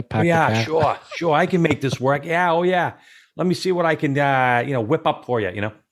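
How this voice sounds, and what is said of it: Imitated heavy Massachusetts accent. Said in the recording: “a Massachusetts guy with the full blown Mass accent”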